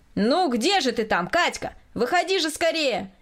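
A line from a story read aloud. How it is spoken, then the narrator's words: Impatient shout. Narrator (Russian): кричал от нетерпения Николай Васильевич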